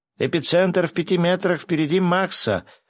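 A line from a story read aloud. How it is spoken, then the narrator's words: Yelling. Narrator (Russian): заорал Гинзо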